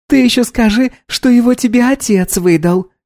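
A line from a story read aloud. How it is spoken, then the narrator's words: Giggle. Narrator (Russian): хихикнула Октавия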